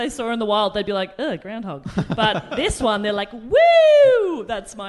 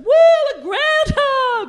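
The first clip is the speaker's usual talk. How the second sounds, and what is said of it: Excited crowd cheering voice. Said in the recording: “my impression of everyone in the crowd”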